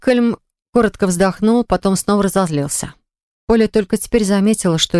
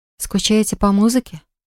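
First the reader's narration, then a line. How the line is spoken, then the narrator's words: Timid question. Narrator (Russian): робко спросила Полли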